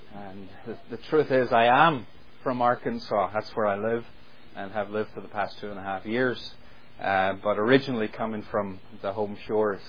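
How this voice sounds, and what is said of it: Northern Irish Ulster accent. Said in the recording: “when they hear the accent ... you hear this accent all the time ... a passionate Ulster preacher”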